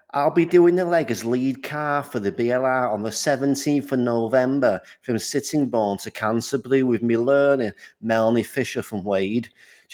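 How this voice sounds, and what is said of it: Put-on Scouse accent. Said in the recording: “read it out in a Scouse accent ... anyone that has a Scouse accent, because you are likely to be highly offended”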